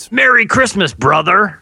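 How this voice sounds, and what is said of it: Hulk Hogan impression. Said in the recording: “Pretty good impression. That was me, not an audio clip of Hulk Hogan.”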